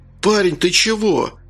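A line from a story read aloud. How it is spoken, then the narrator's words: Frightened babbling. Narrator (Russian): испуганно залепетал он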